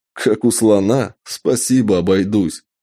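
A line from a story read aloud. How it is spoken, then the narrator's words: Laughing. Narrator (Russian): рассмеялся я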